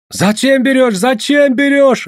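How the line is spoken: Yelling crowd. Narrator (Russian): орали

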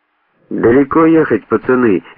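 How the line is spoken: Cheerful question. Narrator (Russian): весело поинтересовался он

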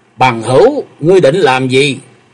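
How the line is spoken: Harsh, sharp voice. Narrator (Vietnamese): Dẫn tên tiêu sư trợn mắt, giọng nói nghe gai gắt

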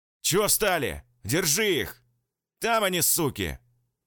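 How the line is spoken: Barked right by ear. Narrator (Russian): Рявкнуло над ухом

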